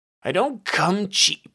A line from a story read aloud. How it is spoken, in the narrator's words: Brontosaurus barked